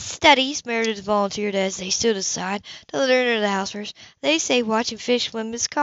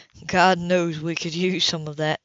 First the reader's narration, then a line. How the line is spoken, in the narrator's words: Leo chuckled